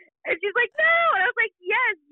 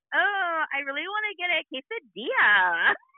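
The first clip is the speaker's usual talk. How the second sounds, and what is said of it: Valley girl accent imitation. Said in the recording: “She sounds like a Valley girl ... You speak with a Valley girl accent when you talk Spanish ... you speak like a Valley girl”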